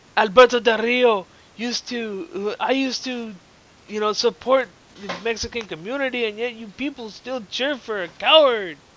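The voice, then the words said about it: Put-on Mexican accent. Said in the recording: “that was my best Mexican impression ... Yeah, that failed.”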